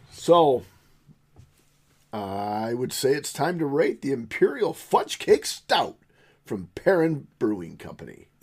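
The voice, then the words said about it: Announcer-style radio voice. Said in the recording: “That was a good radio voice”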